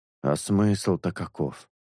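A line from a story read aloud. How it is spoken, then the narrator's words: Grumbling. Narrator (Russian): проворчал Шелк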